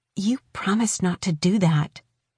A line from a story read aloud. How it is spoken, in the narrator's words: Morrow immediately hissed